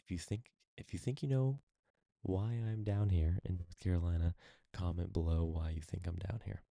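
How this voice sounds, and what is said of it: Whispering, hushed voice. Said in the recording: “why I am whispering essentially at the moment is because I am in Christina's, my wife's, rental property ... I don't want to be like yelling on my podcast”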